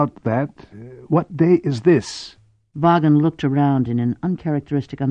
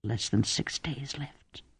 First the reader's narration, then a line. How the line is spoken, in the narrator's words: Cordelia whispered, appalled